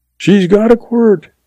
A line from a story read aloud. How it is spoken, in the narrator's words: he yells back